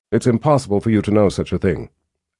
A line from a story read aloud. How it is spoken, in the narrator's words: Anne said flatly